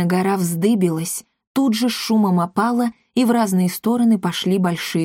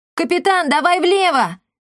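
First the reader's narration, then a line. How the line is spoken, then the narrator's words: Cat shouting. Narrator (Russian): крикнул кот Никодимус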